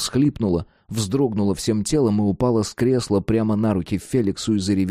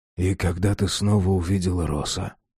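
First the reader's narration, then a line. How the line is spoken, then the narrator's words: Quiet question. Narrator (Russian): тихо спросил Феликс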